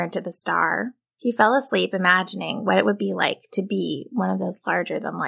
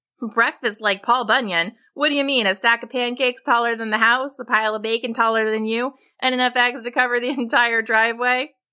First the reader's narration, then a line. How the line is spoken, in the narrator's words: his dad laughed